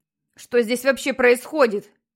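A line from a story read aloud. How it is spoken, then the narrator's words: Shouting male voice. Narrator (Russian): кричал Питер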